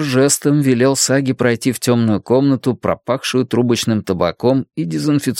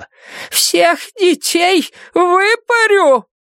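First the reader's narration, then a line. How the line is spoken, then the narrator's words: Shouting. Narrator (Russian): Она кричала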